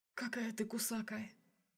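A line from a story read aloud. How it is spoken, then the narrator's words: Whisper. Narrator (Russian): прошептал он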